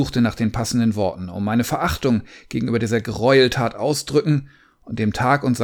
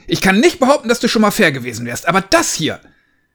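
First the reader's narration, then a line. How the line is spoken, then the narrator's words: Shouting. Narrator (German): schrie ich ihn an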